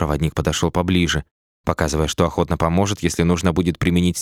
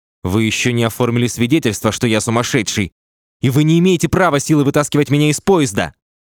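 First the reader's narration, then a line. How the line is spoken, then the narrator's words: Furious shout. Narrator (Russian): Роу закричал в бешенстве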